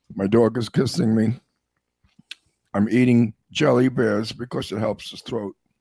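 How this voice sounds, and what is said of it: Hoarse voice from a cold. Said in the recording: “I have a cold. So my voice is gone.”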